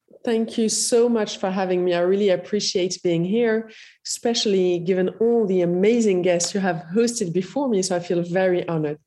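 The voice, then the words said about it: French, Iranian and Moroccan accent. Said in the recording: “the beautiful French, Iranian, Moroccan accent”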